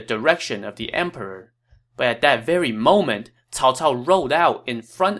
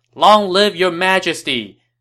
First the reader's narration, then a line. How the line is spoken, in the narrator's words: they all kneeled and shouted